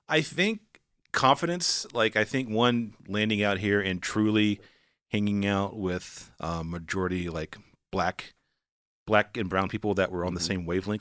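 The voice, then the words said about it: North Carolina Southern accent. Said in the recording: “I have an accent... Wanaco is how I'd pronounce it if I was just using my accent... it's the dialect”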